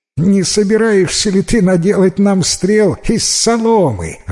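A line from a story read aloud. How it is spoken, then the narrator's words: Group laughing. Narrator (Russian): рассмеялись придворные советники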